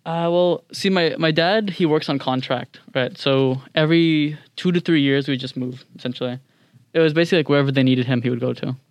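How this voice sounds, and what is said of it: American accent. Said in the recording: “I was living in America for the past 4 years, which is why I sound so American”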